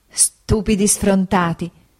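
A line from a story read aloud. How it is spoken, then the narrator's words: Laughing, muffled exclamation. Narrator (Italian): esclamò mia madre ridendo e coprendosi il viso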